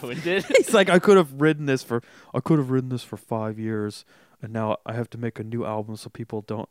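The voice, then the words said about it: Imitates another person's voice. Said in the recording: “That's my Johnny impression.”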